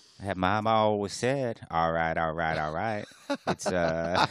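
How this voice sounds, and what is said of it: Forrest Gump-style Southern drawl impression. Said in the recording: “that is Forrest Gump's accent. It's like Matthew McConaughey got hit in the head with a bat or something”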